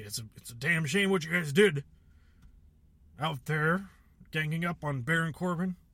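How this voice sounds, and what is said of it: Bad impression of Mr. McMahon. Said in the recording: “This is a really bad impression of him.”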